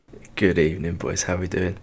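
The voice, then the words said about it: Soft, low ASMR-style sexy voice. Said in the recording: “I love your sexy voice. It's amazing. ... This is my new ASMR sexy voice because uh, I don't want to wake up my uh, soon-to-be two-year-old daughter ... a sexier version of like Ray Winstone's kind of you know kind of Cockney sounding”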